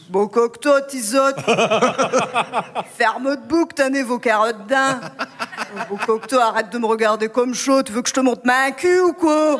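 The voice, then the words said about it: Put-on ch'ti northern French accent. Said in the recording (French): “je retrouve mon accent ch'ti et mon côté beauf”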